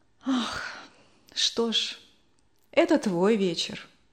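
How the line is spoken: Sighing. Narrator (Russian): вздохнула мама

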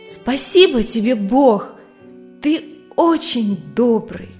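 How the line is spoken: Loud. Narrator (Russian): громко сказал

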